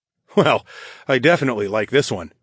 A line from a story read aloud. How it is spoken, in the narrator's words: I chuckled